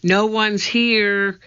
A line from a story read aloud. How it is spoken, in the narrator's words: she shouted back